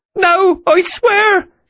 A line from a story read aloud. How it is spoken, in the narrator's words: she cried